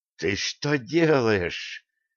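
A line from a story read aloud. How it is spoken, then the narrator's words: Hissing elf. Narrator (Russian): зашипела эльфа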